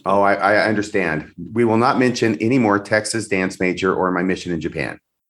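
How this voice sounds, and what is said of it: Low, sick-sounding voice. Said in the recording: “I'm under the weather. ... when my voice is like this, I'm much better at doing low voices”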